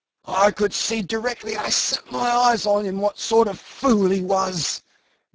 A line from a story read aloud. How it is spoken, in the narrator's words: gasped the dying Brown